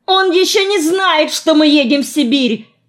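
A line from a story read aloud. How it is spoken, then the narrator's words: Yelling. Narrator (Russian): заорал я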